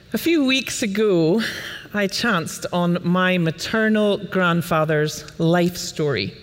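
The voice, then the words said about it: Scottish accent. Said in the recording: “I come from DC by way of Scotland, if you're wondering about the accent”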